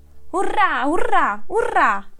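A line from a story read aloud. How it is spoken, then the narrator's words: Happy exclamation. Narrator (Italian): esclamò felice Sopravento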